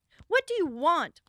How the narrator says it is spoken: Fritz called out again

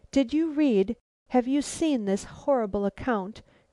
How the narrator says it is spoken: quavered Caroline

